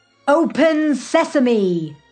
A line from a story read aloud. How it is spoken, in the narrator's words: shouted the leader